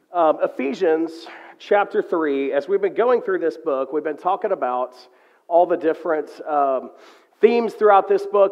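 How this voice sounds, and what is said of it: Slightly rough voice with cough. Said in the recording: “my voice is a little weird this morning. I've got a little cough”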